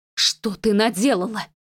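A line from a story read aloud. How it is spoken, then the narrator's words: Hissed. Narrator (Russian): Прошипела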